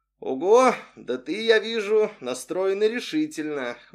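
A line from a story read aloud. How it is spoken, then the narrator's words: Amused snort. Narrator (Russian): хмыкнул Арсений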